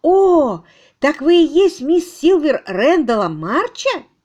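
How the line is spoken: Exclaiming. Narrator (Russian): Генриетта воскликнула

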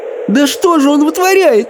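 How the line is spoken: Squeaking. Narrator (Russian): пискнула Софи

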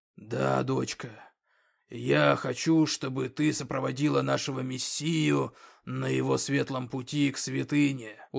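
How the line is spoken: Smiling. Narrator (Russian): улыбаясь, проговорил орк

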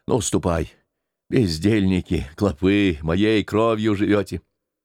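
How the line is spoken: Muttering. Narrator (Russian): бормотал

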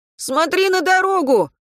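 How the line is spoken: Shouted in unison. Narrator (Russian): в один голос закричали Катя и Антон

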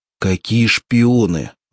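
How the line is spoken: Irritated retort. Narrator (Russian): раздраженно возразил Ромас

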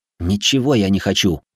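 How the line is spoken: Snapping. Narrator (Russian): огрызнулся я

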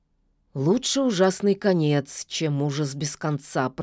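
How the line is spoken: Muttering wood spirit. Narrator (Russian): пробормотал леший

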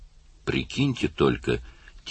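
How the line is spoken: Quiet speech. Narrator (Russian): тихо сказал Карл

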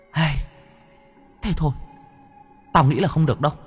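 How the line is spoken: Sighing. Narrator (Vietnamese): Thằng Khôi thở dài

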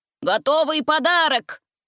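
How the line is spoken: Loud shout. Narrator (Russian): Один из них громко выкрикнул

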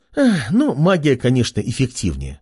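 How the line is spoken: Girl's sigh. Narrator (Russian): вздохнула девушка

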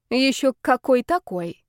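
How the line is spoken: Nasty, snide tone. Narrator (Russian): заявила противным тоном темная сторона

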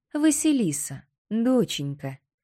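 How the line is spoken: Gentle, affectionate tone. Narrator (Russian): Ласково так, словно с батюшкой разговаривает

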